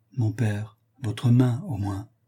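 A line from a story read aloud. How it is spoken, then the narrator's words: Pleading tone. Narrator (French): reprit Florestan, d'un ton suppliant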